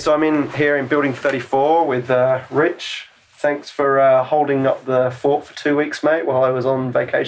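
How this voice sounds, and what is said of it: Australian accent. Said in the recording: “people keep saying my Australian accent's come back a little bit”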